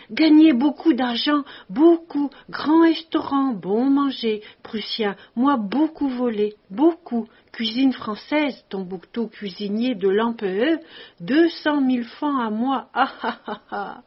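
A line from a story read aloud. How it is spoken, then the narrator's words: Mad laughing scream. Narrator (French): il riait, tordu, hurlant avec une folie de joie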